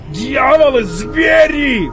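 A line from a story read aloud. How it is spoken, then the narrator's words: Shout. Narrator (Russian): закричал Арнилд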